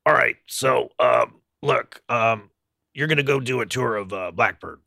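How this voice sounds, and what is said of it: Imitates another person's voice. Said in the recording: “do my Vance Powell imitation”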